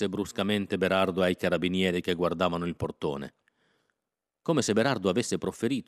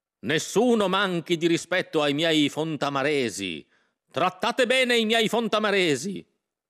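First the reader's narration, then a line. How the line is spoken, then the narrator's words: Shouting. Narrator (Italian): si mise a gridare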